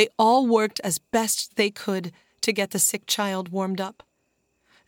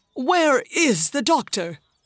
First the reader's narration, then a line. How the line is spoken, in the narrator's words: asked the man sharply